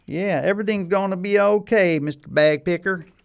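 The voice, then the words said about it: Put-on hillbilly accent. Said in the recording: “in hillbilly language ... Now you got me talking with a hillbilly accent”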